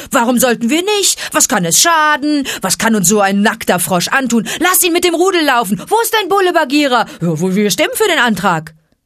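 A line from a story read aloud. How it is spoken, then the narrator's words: Hoarse barking call. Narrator (German): erklang Akelas heiseres Bellen vom Felsen her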